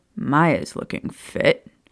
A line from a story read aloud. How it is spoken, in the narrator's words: he muttered out the side of a grin